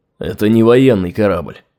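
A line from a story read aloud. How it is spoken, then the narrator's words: Sullen mutter. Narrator (Russian): угрюмо буркнул Сират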